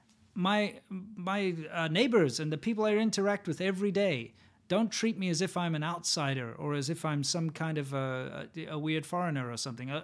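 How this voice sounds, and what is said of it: Foreign accent. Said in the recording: “Some people might talk about my accent or, oh, where are you from type thing”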